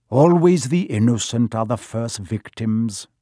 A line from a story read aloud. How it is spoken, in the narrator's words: said